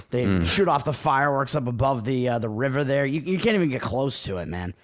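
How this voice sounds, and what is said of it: Boston accent. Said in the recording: “I'm turning into ... again right now. My accent is showing.”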